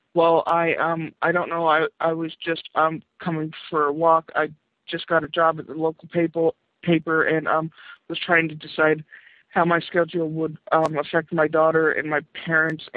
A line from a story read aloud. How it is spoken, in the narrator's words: Rebecca stammered nervously